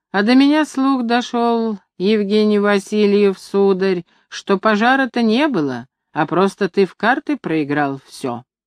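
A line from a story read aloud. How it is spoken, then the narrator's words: Sly, calm, very loud. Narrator (Russian): дед сказал ехидно и спокойно, очень громко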